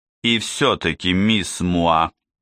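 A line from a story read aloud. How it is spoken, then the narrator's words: Stern. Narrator (Russian): спросил Двали все тем же строгим голосом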